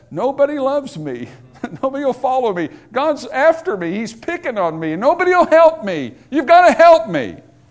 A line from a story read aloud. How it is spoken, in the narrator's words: whines to Samuel and says